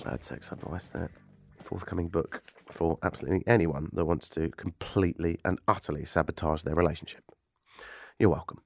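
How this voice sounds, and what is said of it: Stuffy, congested voice from cold. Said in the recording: “I sound a bit stuffy and probably not great radio ... a little bit bushy ... I've got a cold”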